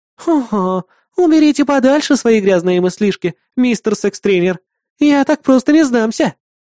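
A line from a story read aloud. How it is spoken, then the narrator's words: Purring. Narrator (Russian): промурлыкала Кри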